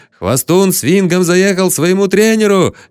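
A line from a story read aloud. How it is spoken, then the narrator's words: Crowd yelling merrily. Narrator (Russian): весело орала толпа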